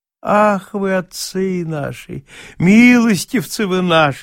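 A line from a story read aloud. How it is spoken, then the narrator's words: Tearfully moved sing-song. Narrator (Russian): заговорил он нараспев и с таким умилением на лице, что вот-вот, казалось, слезы брызнут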